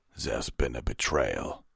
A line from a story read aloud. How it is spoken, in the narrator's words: Vanguard growled